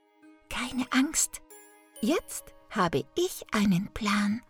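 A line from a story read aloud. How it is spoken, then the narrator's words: Whisper. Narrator (German): flüsterte Gretel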